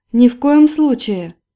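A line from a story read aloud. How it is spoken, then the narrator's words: Exclaimed. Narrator (Russian): воскликнула Полина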